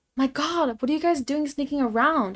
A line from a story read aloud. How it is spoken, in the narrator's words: I screamed at them